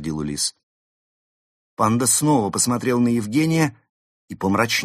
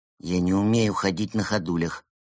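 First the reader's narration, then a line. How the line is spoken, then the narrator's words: Grumbling mutter. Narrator (Russian): буркнул Евгений, которому перспектива стать страусом нравилась ничуть не больше, чем павлином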